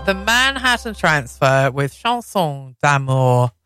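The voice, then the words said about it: Poor put-on French accent. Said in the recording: “My French accent is really appalling, isn't it?”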